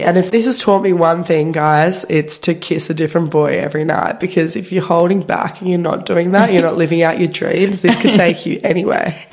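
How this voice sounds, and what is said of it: Congested, strained throaty voice. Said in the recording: “I don't know whether it's your voice ... sorry about my voice, guys. It probably sounds like I've got two balloons held against each of the sides of the back of my throat. ... I cannot breathe nor speak.”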